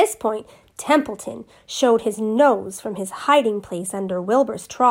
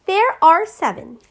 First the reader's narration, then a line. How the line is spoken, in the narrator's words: said the goose